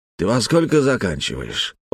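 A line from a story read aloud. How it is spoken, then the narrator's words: Gentle affectionate question. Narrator (Russian): ласково спросил Шамиль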